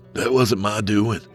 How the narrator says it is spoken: he said as he grit his teeth against the giggling fit in the back of his head

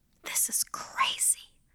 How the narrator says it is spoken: whispered to myself

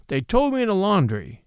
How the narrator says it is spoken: he said harshly

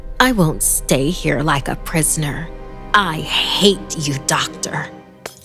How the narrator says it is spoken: Through gritted teeth, she added with a grin

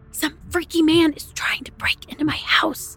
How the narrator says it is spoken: I whispered with alarm

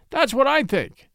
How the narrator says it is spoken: he cried

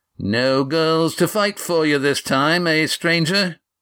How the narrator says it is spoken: Carl taunted

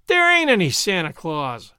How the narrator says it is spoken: whined the boy

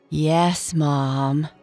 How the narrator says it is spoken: Esther sighed

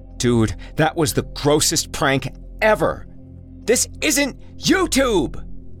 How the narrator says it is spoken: Jesse shouted after him, but clearly too frightened

